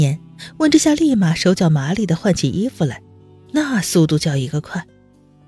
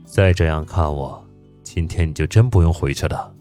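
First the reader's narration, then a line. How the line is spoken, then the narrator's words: Low voice. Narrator (Chinese): 宋时清低声道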